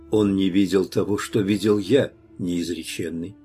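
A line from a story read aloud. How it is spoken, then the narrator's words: Calm reply. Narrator (Russian): ответил я спокойно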